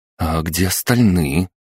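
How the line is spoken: Timid question. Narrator (Russian): Мария робко озвучила вопрос

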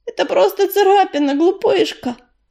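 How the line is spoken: Gentle soothing. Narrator (Russian): ласково успокоила ее Яролика

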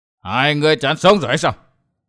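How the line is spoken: Shouting. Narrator (Vietnamese): Đầu Lâu Bảo Chủ quát

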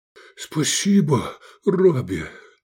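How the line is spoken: Relieved exhale. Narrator (Russian): Облегченно выдохнул он

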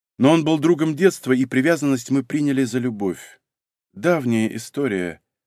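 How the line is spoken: Sighing. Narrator (Russian): Софья вздохнула

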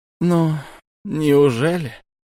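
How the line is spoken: Sighing. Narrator (Russian): вздохнул шаман

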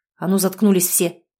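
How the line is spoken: Angry bark. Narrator (Russian): рявкнул на них Егор

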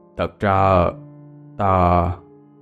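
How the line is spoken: Hesitant old man. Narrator (Vietnamese): Ông lão ngập ngừng

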